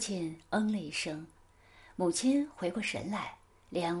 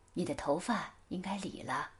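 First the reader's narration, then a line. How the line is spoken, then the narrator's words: Soft, tender. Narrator (Chinese): 柔声地说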